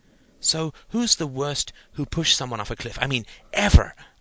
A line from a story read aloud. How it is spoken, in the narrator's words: asked Stephen eagerly